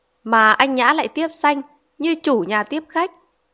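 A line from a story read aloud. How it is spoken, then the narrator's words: Laughing. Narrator (Vietnamese): Xuân bật cười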